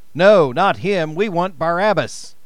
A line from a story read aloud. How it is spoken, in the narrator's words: They answered him with a shout